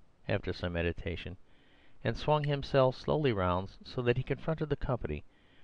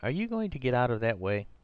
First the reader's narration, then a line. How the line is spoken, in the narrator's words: cried Arthur Inglewood in a kind of agony